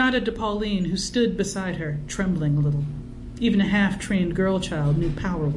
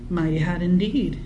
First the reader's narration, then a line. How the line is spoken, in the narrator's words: Emmeline agreed evenly